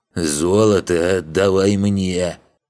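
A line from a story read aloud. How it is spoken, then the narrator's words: Deep booming drone. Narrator (Russian): прогудел Агитрик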